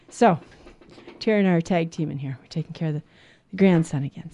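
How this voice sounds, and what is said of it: Out of breath. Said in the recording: “I'm a running, getting out of breath here”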